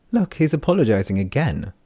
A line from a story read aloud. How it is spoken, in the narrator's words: Taryn said to Vesh, laughing